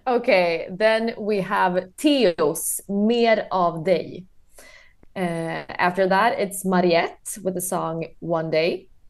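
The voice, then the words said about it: Swedish accent. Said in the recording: “your wonderful Swedish accent”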